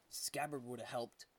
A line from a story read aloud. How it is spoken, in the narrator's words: he muttered